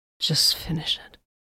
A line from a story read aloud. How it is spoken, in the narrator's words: Vox murmured